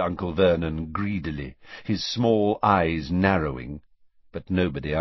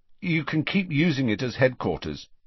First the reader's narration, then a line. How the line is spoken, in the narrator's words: said Harry